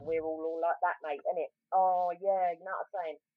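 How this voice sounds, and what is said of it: Exaggerated strong South London accent. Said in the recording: “I've got a pretty South England, South London accent. Which, by the way, does get stronger when you're around your people”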